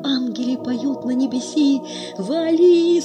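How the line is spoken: Sudden cry. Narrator (Russian): скрикивает Горкин

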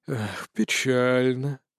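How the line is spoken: Sighing. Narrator (Russian): вздохнул Анубис

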